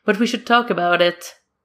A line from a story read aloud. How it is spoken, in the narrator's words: Danny says with a laugh